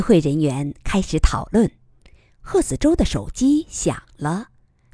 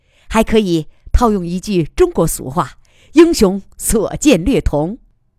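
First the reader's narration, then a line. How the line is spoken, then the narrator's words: Laughing. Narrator (Chinese): 贺子洲笑着说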